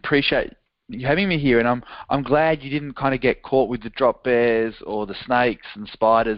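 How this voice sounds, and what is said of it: Australian accent. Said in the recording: “in his accent from Melbourne, Australia”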